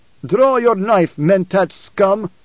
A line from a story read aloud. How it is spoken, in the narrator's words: Stilgar roared